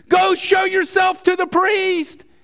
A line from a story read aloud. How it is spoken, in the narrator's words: Jesus yells back from a distance